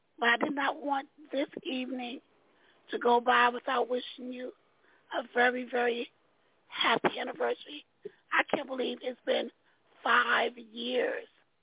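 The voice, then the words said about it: Hoarse voice. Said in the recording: “I'm a little hoarse tonight.”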